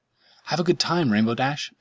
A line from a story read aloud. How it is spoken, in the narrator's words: Pinkie Pie exclaimed